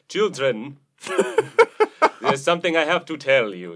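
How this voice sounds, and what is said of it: Put-on German accent. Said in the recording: “he had like a German accent ... He did sound like Bela Lugosi ... in that voice”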